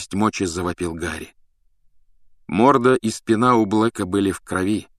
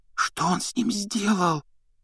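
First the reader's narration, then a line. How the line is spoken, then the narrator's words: Whispering. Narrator (Russian): прошептала Гермиона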